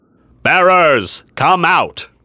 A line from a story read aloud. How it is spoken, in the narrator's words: He had a deep, booming voice that seemed intended to reach the entire army